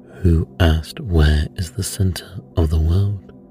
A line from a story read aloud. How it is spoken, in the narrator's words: said Jupiter